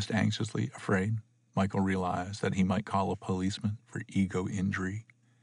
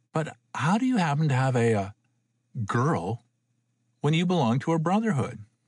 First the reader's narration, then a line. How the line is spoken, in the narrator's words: Michael laughed